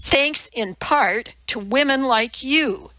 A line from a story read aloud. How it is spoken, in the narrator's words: snapped